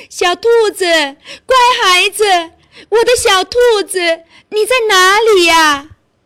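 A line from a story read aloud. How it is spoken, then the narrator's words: Mother rabbit shouting while running. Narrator (Chinese): 兔妈妈慌忙的向家跑去，一边跑一边喊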